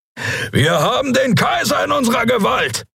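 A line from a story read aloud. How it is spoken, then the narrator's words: Roaring. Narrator (German): brüllte Keru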